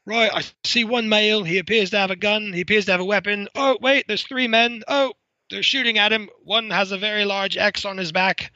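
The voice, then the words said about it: Put-on British accent. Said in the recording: “in my best British accent”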